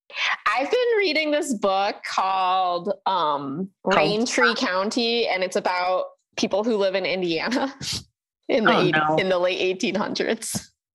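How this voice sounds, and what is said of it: Old-fashioned Hoosier accent. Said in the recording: “That's what has happened to my voice ... I have a Hoosier accent from the 1850s”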